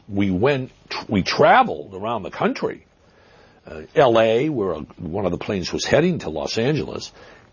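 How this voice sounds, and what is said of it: Boston accent. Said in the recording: “Is that a Brooklyn accent we're hearing? ... Boston. Some people accuse me of cultivating that accent”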